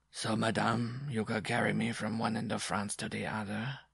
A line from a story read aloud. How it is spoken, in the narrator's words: he droned in a monotonous undertone